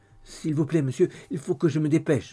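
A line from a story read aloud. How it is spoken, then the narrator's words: Stammering. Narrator (French): balbutia Dolly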